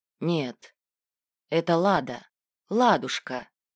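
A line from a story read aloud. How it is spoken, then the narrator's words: Affectionate. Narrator (Russian): ласково называл Добран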